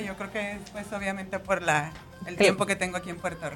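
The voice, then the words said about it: Mixed Mexican and Puerto Rican accent. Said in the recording (Spanish): “Carmen es mexicana ... Me encanta escuchar su acento ... me oigo como combinada ... me empiezan a escuchar boricua, el acento”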